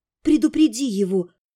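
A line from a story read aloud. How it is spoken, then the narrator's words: Quiet whisper. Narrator (Russian): тихо шепнула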